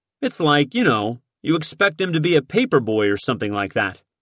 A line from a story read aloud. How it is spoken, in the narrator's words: Morton chuckled